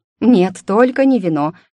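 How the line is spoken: Loud hysterical exclamation. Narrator (Russian): истерично воскликнула громче, чем того требовалось

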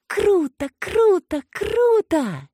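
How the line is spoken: Excited squealing. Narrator (Russian): пищала она

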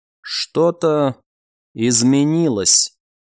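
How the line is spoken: Very quiet. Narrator (Russian): сказано было настолько тихо

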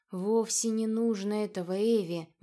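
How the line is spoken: Soft interruption. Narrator (Russian): мягко перебил Адер

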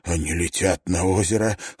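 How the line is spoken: Hoarse whisper. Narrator (Russian): хрипло прошептал Райленд

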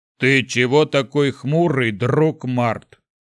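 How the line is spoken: Deep booming rumble. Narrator (Russian): прогудел Шухрак

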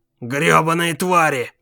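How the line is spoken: Muttered. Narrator (Russian): пробормотал он

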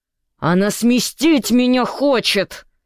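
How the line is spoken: Hissing in face. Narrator (Russian): зашипел он тому в лицо

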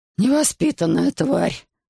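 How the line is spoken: Moaned. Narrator (Russian): простонал он

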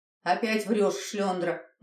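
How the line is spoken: Grim smirking. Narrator (Russian): мрачно ухмыльнулась Марфа

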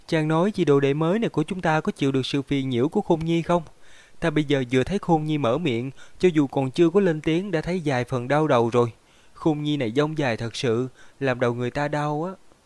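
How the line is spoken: Smiling young woman. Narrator (Vietnamese): Thiếu phụ đột nhiên mỉm cười nói với Lý Hóa Nguyên

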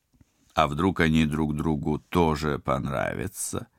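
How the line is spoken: Purring. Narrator (Russian): промурлыкал Тед

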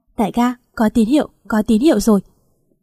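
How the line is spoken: Hurried loud shout. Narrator (Vietnamese): Phan Đường mới vội vàng hét to

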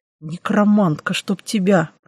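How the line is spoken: Elf's hiss. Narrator (Russian): прошипел эльф

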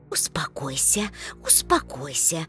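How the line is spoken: Soothing whisper. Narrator (Russian): шептала женщина

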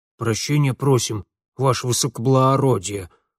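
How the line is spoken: Gloomy constable muttering. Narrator (Russian): хмуро бормотал сам урядник

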